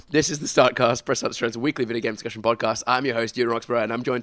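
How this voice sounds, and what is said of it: Failing voice from a cold. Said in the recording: “I'm coming down with a cold. ... My voice is failing. I couldn't even get through that sentence.”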